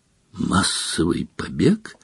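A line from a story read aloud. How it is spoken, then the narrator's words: Hoarse incredulous question. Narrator (Russian): севшим голосом переспросил премьер-министр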